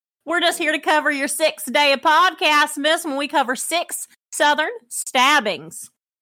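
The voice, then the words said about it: Put-on Southern US accent. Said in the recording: “your southern accent”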